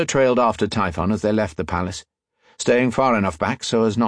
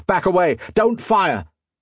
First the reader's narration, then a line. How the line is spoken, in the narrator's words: He shouted